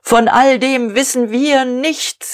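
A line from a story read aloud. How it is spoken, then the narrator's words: Calling out. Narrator (German): rief Diederich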